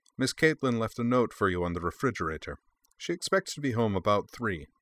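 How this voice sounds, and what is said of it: Pleasant voice, slight German accent. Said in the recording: “in a pleasant voice with a slight German accent.”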